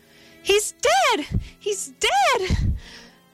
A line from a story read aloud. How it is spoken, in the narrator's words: a woman's voice cried hysterically